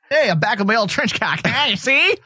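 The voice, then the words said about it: Put-on mid-Atlantic accent. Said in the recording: “I got a mid-Atlantic accent over here.”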